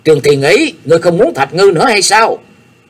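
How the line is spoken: Angry shout, fearful. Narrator (Vietnamese): Nhạc Chi Dương cũng toát mồ hôi lạnh, gã giận dữ quát lớn

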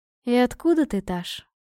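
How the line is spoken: Gentle motherly question. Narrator (Russian): ласково спросила матушка

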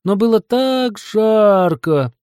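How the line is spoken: Guilty drawl. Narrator (Russian): виноват протянул Йети

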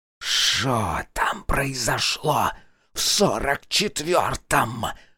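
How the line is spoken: Demonic hiss. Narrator (Russian): прошипел нечистый

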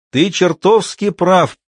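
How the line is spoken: Shouting reply. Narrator (Russian): прокричал в ответ ему Айк

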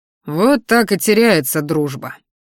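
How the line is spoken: Growl. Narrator (Russian): рыкнул

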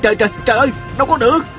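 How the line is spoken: Crying out. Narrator (Vietnamese): Viên Thừa Chí la lên

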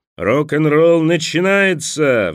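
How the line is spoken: Roaring. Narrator (Russian): взревел сапер

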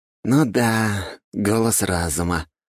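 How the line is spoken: Sighing. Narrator (Russian): вздохнул парень

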